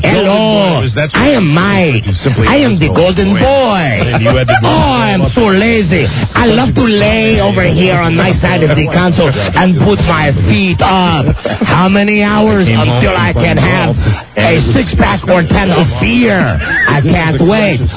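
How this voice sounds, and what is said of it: Put-on Spanish/Mexican accent. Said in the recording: “With a Spanish slash Mexican dialect.”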